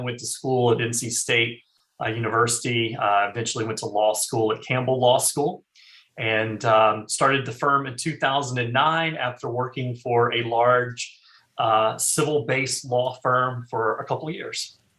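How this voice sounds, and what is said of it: North Carolina accent. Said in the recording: “originally from North Carolina. Born and raised. I probably could tell that from my accent”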